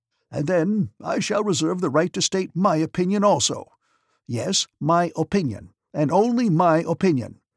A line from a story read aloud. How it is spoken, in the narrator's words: he shouted